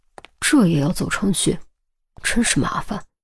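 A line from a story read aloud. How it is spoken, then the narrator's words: Muttering to oneself. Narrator (Chinese): 兀自喃喃自语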